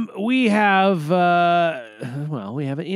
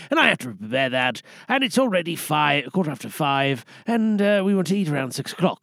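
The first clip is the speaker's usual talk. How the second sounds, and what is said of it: Put-on British accent. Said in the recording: “I did that whole thing in the British accent. I just felt felt British for a moment.”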